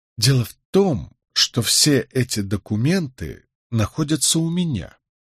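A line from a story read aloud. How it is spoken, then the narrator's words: Quiet statement. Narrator (Russian): негромко сообщил я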